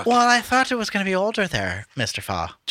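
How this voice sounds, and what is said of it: Exaggerated put-on Irish accent. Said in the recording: “You sound like, ... Cameron Diaz's Irish accent in, what's this fucking, Gangs of New York. ... I shouldn't be doing an accent.”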